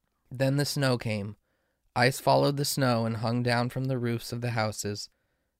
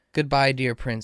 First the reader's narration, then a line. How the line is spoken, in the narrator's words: he said